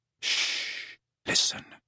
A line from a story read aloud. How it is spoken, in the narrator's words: Ginny, who whispered